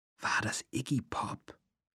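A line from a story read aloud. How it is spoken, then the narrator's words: Whispered. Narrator (German): flüsterte Lee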